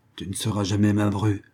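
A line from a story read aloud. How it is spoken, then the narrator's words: Grumbling. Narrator (French): grommela Madame Taifu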